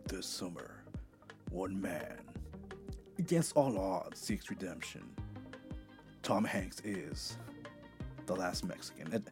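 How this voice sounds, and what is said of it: Deep movie trailer voice. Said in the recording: “sometimes the sick voice sounds a little bit deeper. Like the movie trailer voice”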